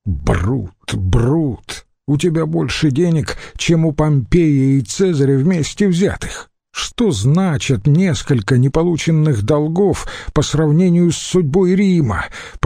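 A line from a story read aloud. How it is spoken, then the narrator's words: Irritated groan. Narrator (Russian): простонал раздраженный Катон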